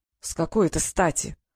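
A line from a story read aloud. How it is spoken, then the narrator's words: Said through teeth. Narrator (Russian): процедил Фэш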